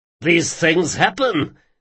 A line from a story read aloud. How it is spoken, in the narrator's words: said Nikoros, giggling energetically as though at some private joke